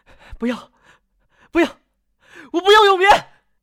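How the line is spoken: Anguished murmur to urgent cry. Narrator (Chinese): 陆和欢痛苦地从梦魇中挣扎，口中发出的声响从含糊不清的呢喃变为焦急的呼喊

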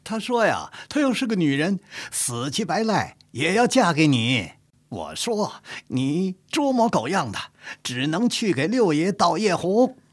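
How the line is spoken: Laughing. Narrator (Chinese): 李世尧笑着说

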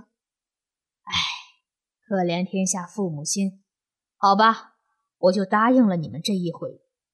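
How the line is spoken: Heavy sigh. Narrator (Chinese): 古静之又重重地叹了一声，说

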